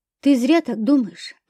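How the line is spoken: Quiet. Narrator (Russian): ответила я тихо

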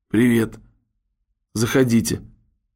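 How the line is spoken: Sleepy, forced-out voice. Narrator (Russian): Сонным голосом она выдавила

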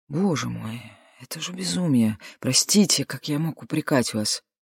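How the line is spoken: Mumbling. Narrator (Russian): брат пробормотал

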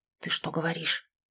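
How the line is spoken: Whispered. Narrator (Russian): зашептал

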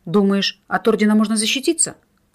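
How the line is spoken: Angry snap. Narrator (Russian): зло огрызнулся Семен

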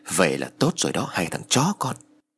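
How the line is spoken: Hissed through teeth. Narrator (Vietnamese): Lâm rít qua kẽ răng rồi nói

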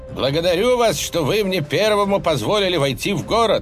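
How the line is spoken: Joyful shout. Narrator (Russian): радостно крикнул Зигфрид

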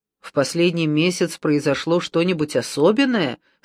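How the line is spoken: Plain. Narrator (Russian): спросил Брунетти

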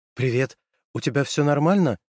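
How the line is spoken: Anxious question. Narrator (Russian): взволнованно спросила

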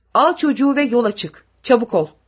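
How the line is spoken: Shouted. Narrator (Turkish): diye bağırdı

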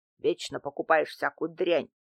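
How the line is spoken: Grumbling. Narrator (Russian): проворчал Дмитрий Иванович

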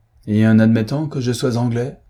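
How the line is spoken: Ominous growling reply. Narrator (French): répondit-il avec un grognement de mauvais augure

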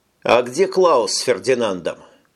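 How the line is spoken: Plain. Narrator (Russian): спросил Тони

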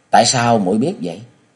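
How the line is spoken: Smiling question. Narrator (Vietnamese): Kế Quan cũng mỉm cười hỏi lại

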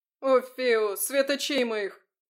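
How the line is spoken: Howling young lad. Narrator (Russian): взвыл юркий парнишка

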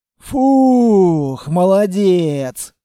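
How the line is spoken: Relieved exhale. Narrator (Russian): облегченно выдохнул Строгов

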